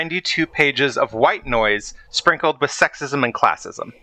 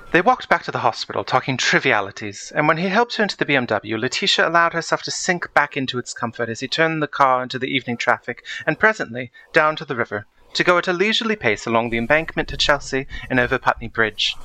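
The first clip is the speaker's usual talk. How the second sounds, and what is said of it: Put-on British accent. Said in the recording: “I think I will do it in a British accent”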